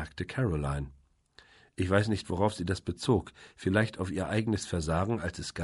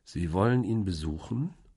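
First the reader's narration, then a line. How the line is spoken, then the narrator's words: Slow question. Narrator (German): fragte ich langsam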